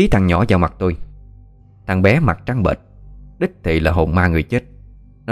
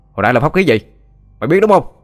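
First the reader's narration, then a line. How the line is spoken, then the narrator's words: Sharp shout. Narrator (Vietnamese): Xin quát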